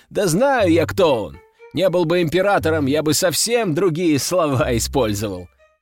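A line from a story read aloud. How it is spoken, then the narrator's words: Laughing loudly. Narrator (Russian): расхохотался Костя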